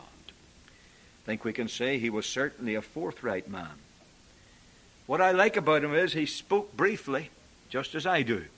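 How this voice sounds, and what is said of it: Foreign accent. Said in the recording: “my foreign accent”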